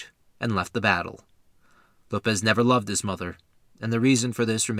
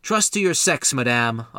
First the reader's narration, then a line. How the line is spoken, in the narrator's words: Lopez called out